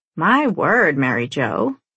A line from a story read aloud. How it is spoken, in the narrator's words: Grandma remarks with a cackle